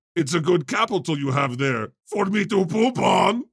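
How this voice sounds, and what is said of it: Triumph the Insult Comic Dog impression. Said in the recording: “Triumph ... Sometimes my impersonations are spot on, and sometimes they're like, that was trash ... It almost went no soup for you ... It was given soup Nazi just a smidge.”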